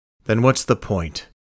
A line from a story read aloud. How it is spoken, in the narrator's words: The old detective grunted